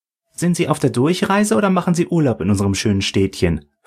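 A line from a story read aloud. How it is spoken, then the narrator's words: Plain question. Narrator (German): fragte die Barista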